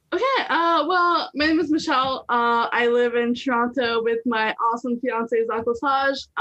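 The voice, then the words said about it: Heavy French accent. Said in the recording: “I'm originally from Montreal, so that's why the heavy French accent.”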